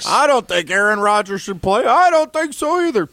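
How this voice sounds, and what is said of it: Grouchy old Muppet hecklers impression. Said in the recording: “That's actually a pretty good imitation there ... Old guys that are grouchy ... Stadler or Waldorf”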